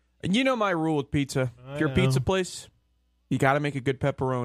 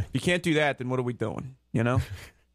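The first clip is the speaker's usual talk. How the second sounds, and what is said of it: Slight Italian-American accent. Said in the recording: “You had a little accent in there ... Italian accent ... The American Italian accent, obviously.”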